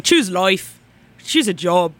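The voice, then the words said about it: Convincing put-on accent. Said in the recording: “That was a really good accent.”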